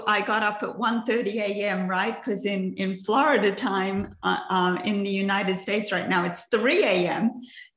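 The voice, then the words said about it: Mixed Australian-American accent. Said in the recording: “I'm originally from Australia. And I have this half and half accent because I've lived in the United States since 1979.”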